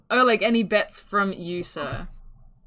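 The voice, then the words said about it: Put-on character accent. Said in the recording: “Is what Stella says in her accent.”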